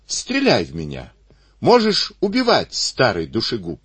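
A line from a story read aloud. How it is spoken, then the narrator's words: Joyful shout. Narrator (Russian): Исаул крикнул радостно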